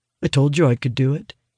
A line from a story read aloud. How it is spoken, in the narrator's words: he murmurs, smirking